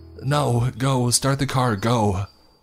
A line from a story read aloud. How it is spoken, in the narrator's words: I yelled frantically